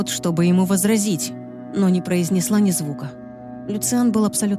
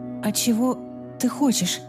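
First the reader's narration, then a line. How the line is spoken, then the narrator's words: Trembling voice. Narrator (Russian): спросила я дрожащим голосом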